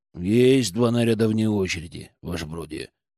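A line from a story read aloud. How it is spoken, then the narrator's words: Gloomy mutter. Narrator (Russian): Иван помрачнел, но буркнул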